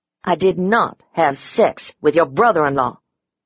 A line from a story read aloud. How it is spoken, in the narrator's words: I snapped